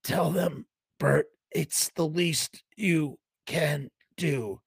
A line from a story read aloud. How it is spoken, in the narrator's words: Frank rasped